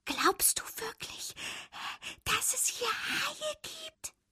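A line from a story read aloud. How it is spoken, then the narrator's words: Whispered. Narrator (German): flüsterte Fabius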